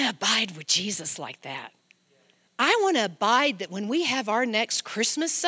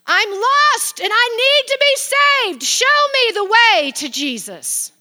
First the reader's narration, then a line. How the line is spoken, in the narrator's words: she falls on her knees and shouts out loud to the whole entire church